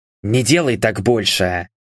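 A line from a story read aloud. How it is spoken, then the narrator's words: Whispered. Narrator (Russian): прошептал я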